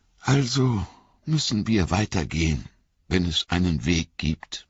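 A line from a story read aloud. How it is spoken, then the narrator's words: Sighing. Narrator (German): sagte Frodo mit einem Seufzer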